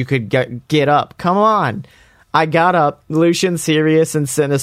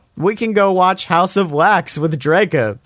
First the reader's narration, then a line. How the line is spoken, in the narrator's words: giggled Vampire